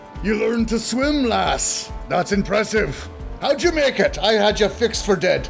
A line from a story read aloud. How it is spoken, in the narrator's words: Roy shouts to Malison